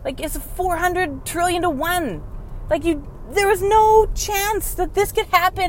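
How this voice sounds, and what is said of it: Loud, yelling, passionate delivery. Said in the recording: “I'm yelling into this, but I'm like super passionate about this”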